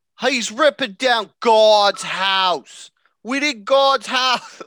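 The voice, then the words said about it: Bad put-on New Jersey accent. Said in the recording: “let's hear that Jersey accent ... That went to the Jersey that's in. So bad. ... That was like Walmart Jersey. ... That was easily the worst accent I've ever done on this podcast.”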